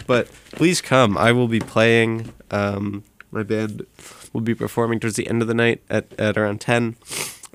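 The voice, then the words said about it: Sniffly, congested voice. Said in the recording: “Sorry, I'm sniffling through that. I have a bit of a cold.”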